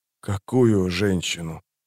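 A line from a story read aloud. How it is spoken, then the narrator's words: Hoarse rasp. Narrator (Russian): прохрипел Паран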